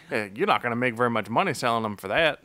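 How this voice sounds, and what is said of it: Weird put-on accent. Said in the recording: “I don't know where that accent came from. ... I've been weird accents tonight.”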